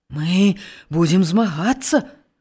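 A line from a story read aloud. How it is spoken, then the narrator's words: Whisper. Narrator (Belarusian): прашаптаў малады пастух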